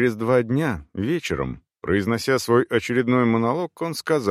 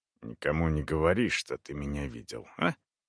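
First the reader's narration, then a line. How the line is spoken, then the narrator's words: Whispered. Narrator (Russian): прибавил шепотом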